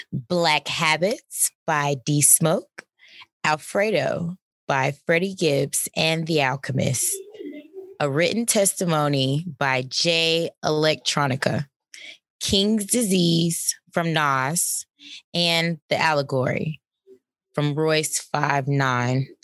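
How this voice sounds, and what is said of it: Announcer voice. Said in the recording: “I want to get my announcer voice.”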